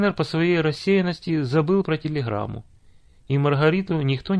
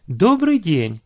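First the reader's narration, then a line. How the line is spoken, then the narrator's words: Cheerful greeting. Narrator (Russian): радостно поздоровалась она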